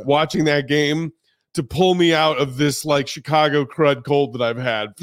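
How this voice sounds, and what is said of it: Hoarse voice. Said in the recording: “My voice is hoarse again now ... Because I've been yelling for 3 hours”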